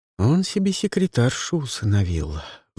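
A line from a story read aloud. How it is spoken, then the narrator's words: Sighing. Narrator (Russian): вздохнула Люси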